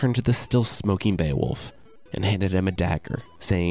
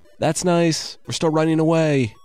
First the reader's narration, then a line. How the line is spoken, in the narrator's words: the men yelled back